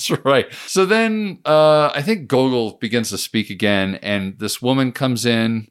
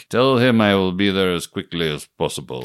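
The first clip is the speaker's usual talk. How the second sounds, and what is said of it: Put-on Russian accent. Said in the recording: “your Russian accent was better than anything he did in the movie”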